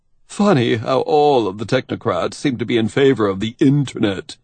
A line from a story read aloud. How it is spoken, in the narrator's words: Kivistik said cheerily